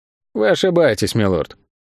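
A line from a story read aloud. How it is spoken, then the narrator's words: Even tone. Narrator (Russian): ровным тоном ответил Тео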